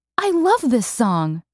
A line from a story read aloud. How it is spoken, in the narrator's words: she cried